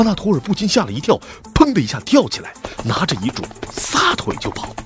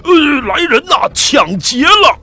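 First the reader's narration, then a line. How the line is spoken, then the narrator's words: Shouting loudly. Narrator (Chinese): 继而大喊 喊大叫起来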